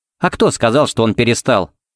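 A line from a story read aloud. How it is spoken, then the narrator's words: Snorting. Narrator (Russian): фыркнула Пепси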